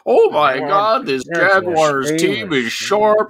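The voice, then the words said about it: Impression of Chris Collinsworth. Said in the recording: “Chris Collinsworth ... good impression”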